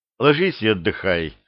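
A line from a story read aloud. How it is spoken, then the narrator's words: Gentle. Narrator (Russian): мягко сказал Репин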